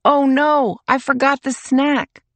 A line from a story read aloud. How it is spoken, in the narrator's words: Mom shouts